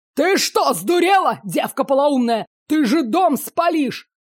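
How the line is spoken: Roaring. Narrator (Russian): Взревел Чудов, темнее лицом

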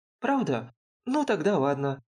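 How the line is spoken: Quick change of mind. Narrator (Russian): сразу передумала Айми

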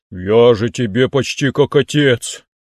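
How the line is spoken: Reproachful sigh. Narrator (Russian): укоризненно вздохнул

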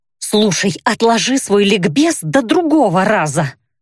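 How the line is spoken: Hiss. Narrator (Russian): прошипела я

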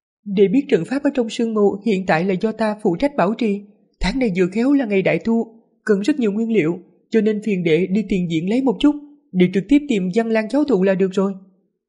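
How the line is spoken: Smiling. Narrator (Vietnamese): Thất sư tỷ mỉm cười nói

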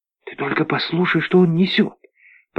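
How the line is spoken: Female whisper. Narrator (Russian): прошептала она

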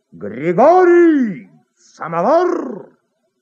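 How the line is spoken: Loud shout from corridor. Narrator (Russian): А в коридоре кто-то кричал во все горло

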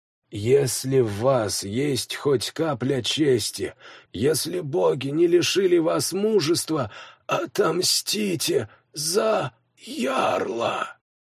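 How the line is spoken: Dying gasp. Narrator (Russian): Выдохнув последние слова, Свен

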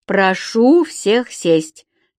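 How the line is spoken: Solemn. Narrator (Russian): торжественно сказала Женя

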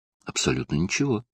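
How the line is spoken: Calm. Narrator (Russian): спокойно отозвался профессор Хьюитт

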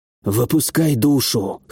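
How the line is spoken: Hoarse. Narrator (Russian): хрипло сказал я

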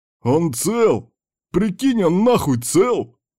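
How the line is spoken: Yelling. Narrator (Russian): заорал Кирк

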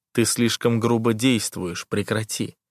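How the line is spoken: Quiet warning. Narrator (Russian): тихо предупреждаю я

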